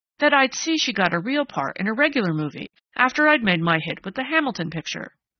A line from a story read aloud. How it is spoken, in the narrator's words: Sprague took him up eagerly